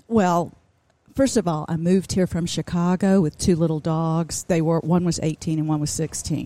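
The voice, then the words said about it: Southern American accent. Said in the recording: “You kept the southern accent?”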